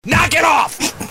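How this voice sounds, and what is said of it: Yelling stern dad voice. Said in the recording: “That was dad voice. ... I don't need you to yell at me.”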